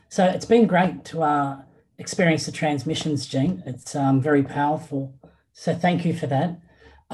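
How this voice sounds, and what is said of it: Australian accent. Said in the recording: “My accent would indicate I'm calling from Sydney in Australia.”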